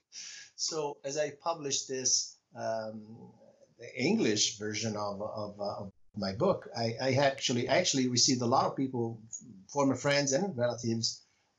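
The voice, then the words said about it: Italian accent. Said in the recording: “as you can tell, my native language is Italian ... love your accent”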